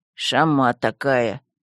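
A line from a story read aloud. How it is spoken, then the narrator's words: Quiet grumble. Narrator (Russian): негромко проворчал посох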